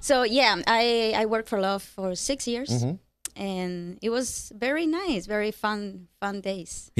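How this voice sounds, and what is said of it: Cuban Spanish accent. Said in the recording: “I detect the accent from where are you? ... Yes, I'm from Cuba.”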